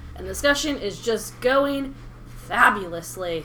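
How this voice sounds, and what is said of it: Sarcastic delivery in a put-on accent. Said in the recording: “I don't know what this accent is, but this is what I went with ... the sarcasm in my freaking voice”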